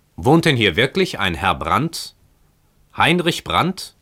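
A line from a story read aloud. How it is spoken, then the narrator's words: Loud call. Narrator (German): Der Fremde rief mit lauter Stimme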